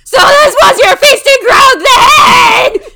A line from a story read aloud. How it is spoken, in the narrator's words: Sonadrid shrieked